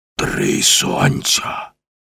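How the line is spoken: Hoarse. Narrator (Ukrainian): Прохрипів Маккен

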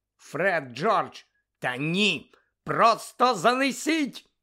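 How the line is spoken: Shout. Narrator (Ukrainian): закричала місіс Візлі

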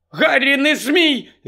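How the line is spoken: Shouting. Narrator (Ukrainian): закричала Герміона

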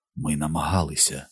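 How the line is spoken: Whisper in ear. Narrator (Ukrainian): прошепотів він мені на вухо

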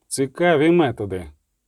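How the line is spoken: Cold. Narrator (Ukrainian): Сказав холодно відьмак

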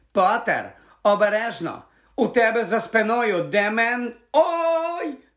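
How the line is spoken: Shriek. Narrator (Ukrainian): Заверещала Лаванда Браун

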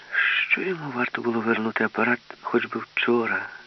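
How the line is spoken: Sighing. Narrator (Ukrainian): зітхнула Мила Руткевич

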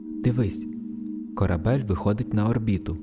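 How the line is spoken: Plain. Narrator (Ukrainian): сказала Тріліан

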